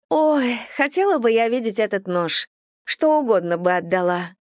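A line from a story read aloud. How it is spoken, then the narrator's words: Agitated sigh. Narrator (Russian): вздохнула Дейзи, в волнении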